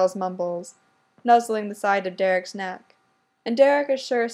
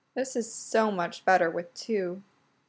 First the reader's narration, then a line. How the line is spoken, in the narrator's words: Styles mumbles